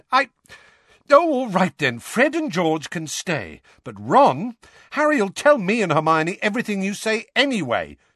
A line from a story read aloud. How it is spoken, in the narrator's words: said Ron hotly